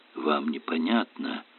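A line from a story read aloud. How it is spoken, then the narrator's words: Quiet whisper. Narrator (Russian): тихо шепнул Эллери Айшему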